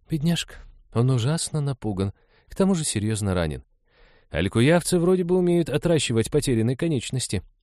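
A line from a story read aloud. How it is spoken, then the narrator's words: Uncertain. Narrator (Russian): неуверенно сказала Лиза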